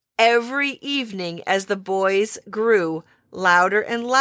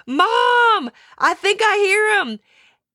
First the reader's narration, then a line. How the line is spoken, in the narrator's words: one of the boys would sit straight up in their sleeping bags and holler